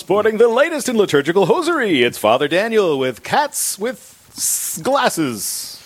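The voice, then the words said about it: Announcer-style radio voice. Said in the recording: “his radio voice ... me to do my radio voice?”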